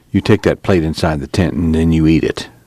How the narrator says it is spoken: Tom said quietly

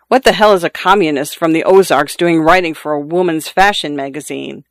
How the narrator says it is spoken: Louise chuckled

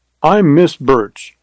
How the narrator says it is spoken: said Carly

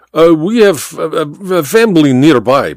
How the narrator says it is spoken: Baba stammered

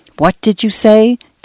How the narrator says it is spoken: Dan whispered to Cynthia

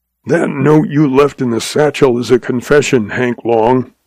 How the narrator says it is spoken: he snarled

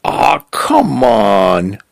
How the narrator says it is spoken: groaning

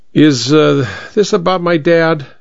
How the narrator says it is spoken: he asked, his voice slurred enough to show he was drunk

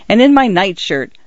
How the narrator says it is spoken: he stipulated, added hastily

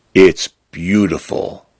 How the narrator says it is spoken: Fern says softly

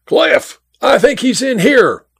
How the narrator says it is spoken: yelled to the man at the pump

